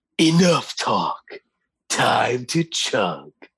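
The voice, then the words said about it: Badlands Chugs impression. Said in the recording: “do your best Badlands Chugs impersonation”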